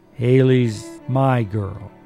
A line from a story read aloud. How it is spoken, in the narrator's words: He said gently